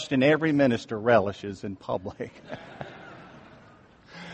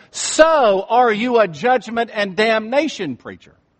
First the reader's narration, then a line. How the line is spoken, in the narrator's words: she says in a loud voice